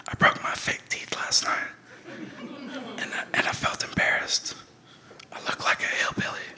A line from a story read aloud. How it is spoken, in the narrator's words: whispered in her ear